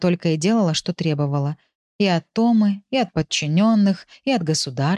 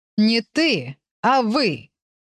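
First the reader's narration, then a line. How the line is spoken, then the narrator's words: Sharp shout. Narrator (Russian): прикрикнула та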